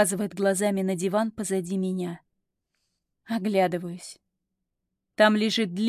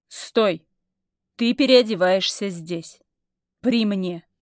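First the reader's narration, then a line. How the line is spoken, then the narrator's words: Commanding tone. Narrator (Russian): выдает повелительным тоном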